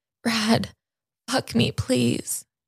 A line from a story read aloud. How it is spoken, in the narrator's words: she begged